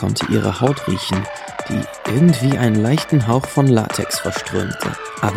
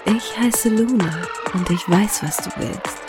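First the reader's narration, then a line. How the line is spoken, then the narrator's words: Seductive breathy whisper. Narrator (German): hauchte sie ihm verführerisch ins Ohr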